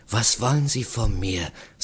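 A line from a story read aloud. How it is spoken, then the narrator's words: Quiet. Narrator (German): sagte ich leise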